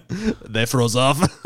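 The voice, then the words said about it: Put-on Russian accent. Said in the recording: “Now I'm Russian ... all my accents just go Russian”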